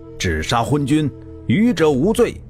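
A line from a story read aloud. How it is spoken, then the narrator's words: Loud shout. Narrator (Chinese): 孙林父在宫门外大叫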